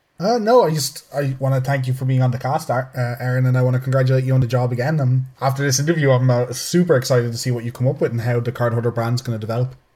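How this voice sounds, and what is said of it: Irish accent. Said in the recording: “your accent is delightful ... he's our favorite Irishman for sure”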